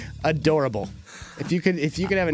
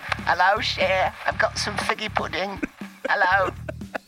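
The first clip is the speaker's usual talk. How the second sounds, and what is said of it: Old woman's put-on English accent. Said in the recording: “a 90-year-old grandma with an English accent”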